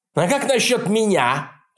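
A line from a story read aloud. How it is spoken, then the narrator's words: Irritated interruption. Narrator (Russian): раздраженно перебил его Реднек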